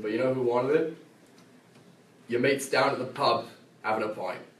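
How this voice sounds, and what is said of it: Poorly done put-on accent. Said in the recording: “that accent. That was horrible... I'm usually pretty good with my accents”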